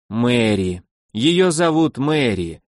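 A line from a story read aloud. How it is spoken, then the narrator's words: Heavy resigned exhale. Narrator (Russian): тяжело выдохнул темноволосый, поняв, что она от него так просто не отстанет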